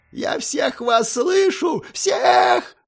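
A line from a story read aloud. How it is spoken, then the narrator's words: Shrieking. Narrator (Russian): завизжал представитель Аралинга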